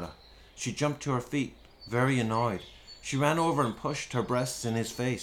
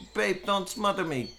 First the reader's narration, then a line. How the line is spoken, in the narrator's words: cried Tony